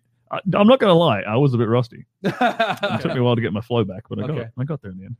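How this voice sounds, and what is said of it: Speaks with a foreign accent. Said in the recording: “He uses his accent.”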